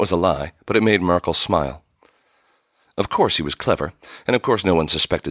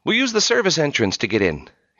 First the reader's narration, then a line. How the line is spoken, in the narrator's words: the brilliance boy called out